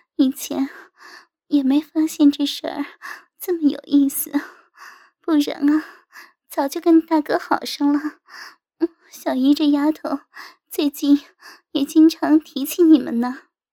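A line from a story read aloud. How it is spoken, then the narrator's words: Mature woman, smiling reply. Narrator (Chinese): 成熟妇人的风韵就展露出来，扭头微笑应道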